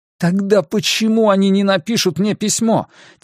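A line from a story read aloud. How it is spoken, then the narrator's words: Losing composure, exclaiming. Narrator (Russian): теряя самообладание, воскликнул я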